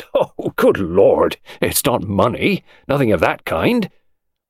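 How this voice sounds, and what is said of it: Horrified exclamation. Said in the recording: “interrupted in a horrified voice”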